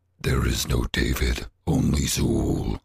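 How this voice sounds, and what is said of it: Put-on character voice. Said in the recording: “How much practice did you put into that voice? ... I do that voice on the regular.”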